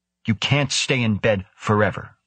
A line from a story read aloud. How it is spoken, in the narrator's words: the surgeon snapped